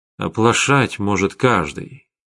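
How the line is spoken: Quiet. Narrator (Russian): тихо сказал Вячеслав

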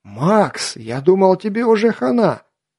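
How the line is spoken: Shout. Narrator (Russian): скрикнул Хорек

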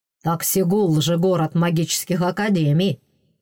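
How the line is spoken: Snort, man. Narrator (Russian): хмыкнул мужчина

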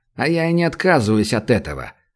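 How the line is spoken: Calm. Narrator (Russian): спокойно отозвался Шульц

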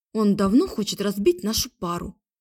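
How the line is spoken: Snorted. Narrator (Russian): фыркнула я

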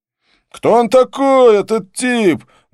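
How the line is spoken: Loud question, bearded man. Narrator (Russian): громко поинтересовался бородач, не обращаясь ни к кому конкретно

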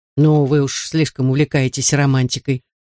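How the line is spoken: Mother muttering. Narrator (Russian): пробормотала мать

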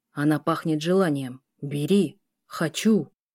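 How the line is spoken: Beast growling. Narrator (Russian): рычал зверь

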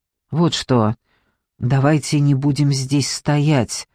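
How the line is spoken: Sudden whisper. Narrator (Russian): прошептал вдруг

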